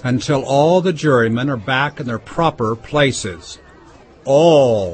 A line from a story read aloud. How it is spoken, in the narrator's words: said the king in a very grave voice